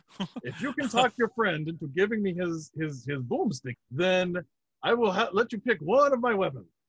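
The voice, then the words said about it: Put-on unidentifiable accent. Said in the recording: “I don't know what the fuck this accent is.”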